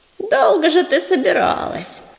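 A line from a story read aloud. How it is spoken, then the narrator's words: Grumbling cat. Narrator (Russian): проворчала вторая кошка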